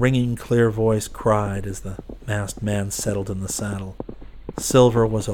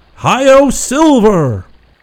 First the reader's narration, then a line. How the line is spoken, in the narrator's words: The Lone Ranger shouted